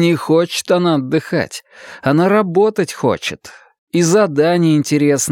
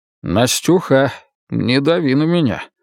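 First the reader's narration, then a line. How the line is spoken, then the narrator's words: Calm very serious. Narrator (Russian): спокойно, но очень серьезно проговорил Стасов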